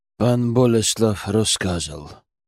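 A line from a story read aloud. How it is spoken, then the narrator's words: Muttered. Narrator (Russian): пробурчал он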